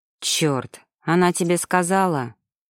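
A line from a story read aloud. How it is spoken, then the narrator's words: Flustered, then sullen. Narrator (Russian): Растерялся Шведов и сразу набычился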